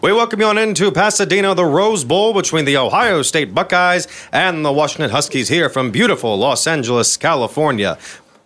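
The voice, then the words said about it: Imitates a sportscaster's voice. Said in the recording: “do an impression ... interviewing you as Keith Jackson”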